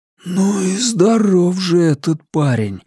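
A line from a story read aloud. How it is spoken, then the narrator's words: Breathed out, amazed. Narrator (Russian): выдохнул кто-то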